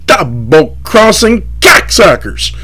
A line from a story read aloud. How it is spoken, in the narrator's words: screaming